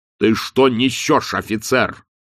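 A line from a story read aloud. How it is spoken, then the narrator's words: Irritated bark. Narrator (Russian): раздраженно рявкнул он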